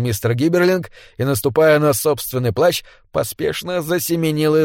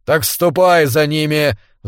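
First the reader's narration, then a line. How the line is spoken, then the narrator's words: Roaring. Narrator (Russian): взревел Белкис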